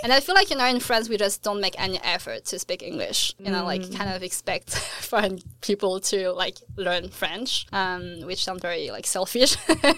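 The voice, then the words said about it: French accent speaking English. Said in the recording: “I'm really trying to lose my French accent”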